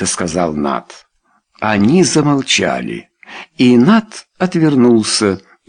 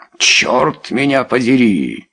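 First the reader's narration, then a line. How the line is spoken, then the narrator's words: Exclamation. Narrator (Russian): снова воскликнул Нат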